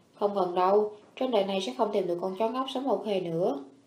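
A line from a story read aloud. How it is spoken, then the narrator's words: Sighing. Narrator (Vietnamese): Trần Xuyên thở dài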